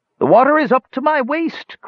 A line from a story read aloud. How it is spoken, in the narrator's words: cried Skowar, his voice drifting up to Tanis on the surf-soaked wind